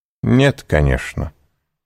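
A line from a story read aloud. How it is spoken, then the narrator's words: Haughty tone. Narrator (Russian): сказал надменным тоном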